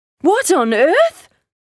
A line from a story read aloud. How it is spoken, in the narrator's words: shrieked